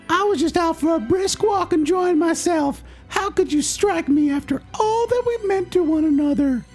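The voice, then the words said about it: High-pitched character voice. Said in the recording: “have the hog speak in a high voice”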